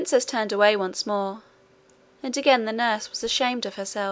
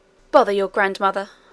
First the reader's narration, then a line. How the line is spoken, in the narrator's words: said the nurse